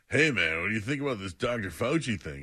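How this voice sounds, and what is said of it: Stoner-like impression of another person. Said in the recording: “So now I'm a stoner.”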